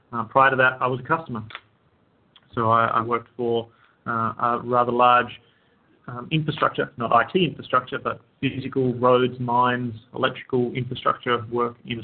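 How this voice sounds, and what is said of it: Australian accent. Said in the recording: “I hail from Australia. That's why I have a funny accent.”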